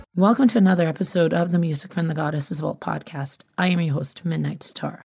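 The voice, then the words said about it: Hoarse voice, recovering from sore throat. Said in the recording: “I have to apologize for my voice today because I'm getting over a sore throat.”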